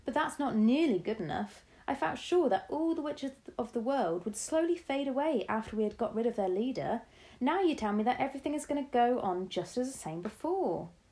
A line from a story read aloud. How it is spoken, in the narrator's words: I cried